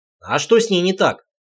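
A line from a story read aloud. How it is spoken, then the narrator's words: Snort. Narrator (Russian): хмыкнул я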